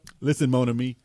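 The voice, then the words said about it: Poor attempt at New Orleans accent. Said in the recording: “Terrible accent. ... Oh, that was terrible. ... That was an accent? ... That was English. ... I'm not from New Orleans.”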